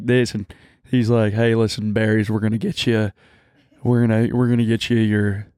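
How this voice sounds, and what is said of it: Deep southern country accent, Clinton-like. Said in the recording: “He almost talks like Bill Clinton, like he has like a deep country, southern, rich ... Person ... accent.”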